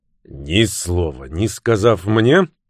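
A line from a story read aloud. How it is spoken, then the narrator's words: Angry snap. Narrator (Russian): сердито бросил Фицуильям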